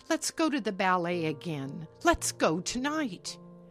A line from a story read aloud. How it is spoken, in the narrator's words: she exclaimed